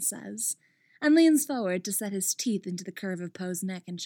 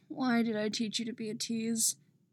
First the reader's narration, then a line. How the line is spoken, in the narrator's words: sighs